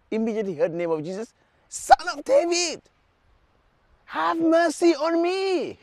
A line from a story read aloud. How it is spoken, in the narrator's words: he shouted